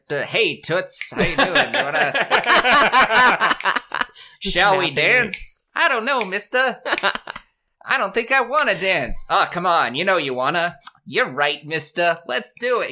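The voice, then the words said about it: Old-time big band era dialogue. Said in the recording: “do my impression of big band”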